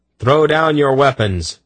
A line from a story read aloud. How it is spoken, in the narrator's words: he shouted at the startled Kerans